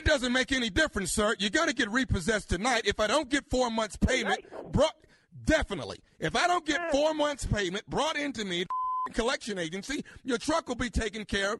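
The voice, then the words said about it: Screaming angrily over the phone. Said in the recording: “stop screaming at me over this phone”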